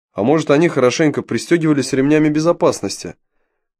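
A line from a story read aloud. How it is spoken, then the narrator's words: Confident, pleased. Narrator (Russian): Уверенным тоном ответил Юрий, довольный тем, что его случайное высказывание быстро переросло в неплохо обоснованную гипотезу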